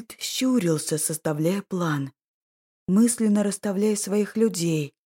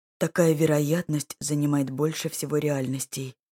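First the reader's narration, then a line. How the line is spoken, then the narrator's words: Weary. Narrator (Russian): устало ответил маг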